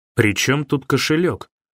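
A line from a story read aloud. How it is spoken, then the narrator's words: Angry question. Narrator (Russian): сердито спросил Антон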